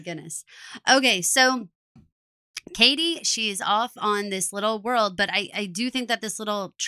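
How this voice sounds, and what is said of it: Usual voice. Nothing is said of it.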